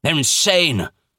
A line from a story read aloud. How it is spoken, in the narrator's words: snapped Professor Playfair